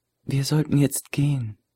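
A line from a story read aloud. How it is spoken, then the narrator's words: Whisper in ear. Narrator (German): Die Brünette flüsterte in sein Ohr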